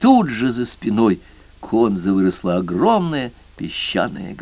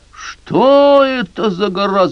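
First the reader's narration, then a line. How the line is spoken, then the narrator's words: Witch shouting. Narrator (Russian): закричала ведьма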